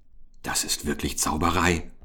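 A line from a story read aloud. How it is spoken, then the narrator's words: Whispered. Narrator (German): flüsterte Oskar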